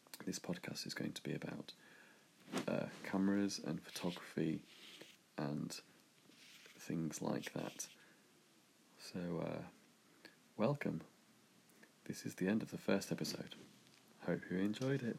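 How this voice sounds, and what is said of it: Unwell-sounding voice. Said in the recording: “I'm currently not too well ... excuse my voice”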